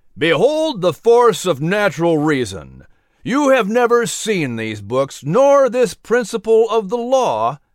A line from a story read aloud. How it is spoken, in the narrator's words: John Randolph bellowed